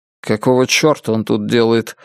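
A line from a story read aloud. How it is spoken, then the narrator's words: Irritated question. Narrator (Russian): раздраженно спросил Генри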